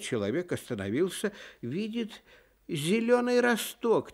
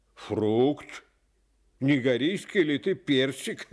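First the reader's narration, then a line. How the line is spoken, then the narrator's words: Laughing, mean-spirited. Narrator (Russian): засмеялся злой человек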